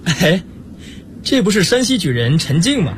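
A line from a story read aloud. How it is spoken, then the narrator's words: Amused question. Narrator (Chinese): 明珠笑着问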